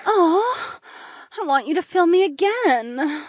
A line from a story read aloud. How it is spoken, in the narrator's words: Polina sighed